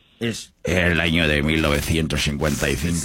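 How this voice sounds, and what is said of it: Documentary narrator voice. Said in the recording (Spanish): “voz de documental”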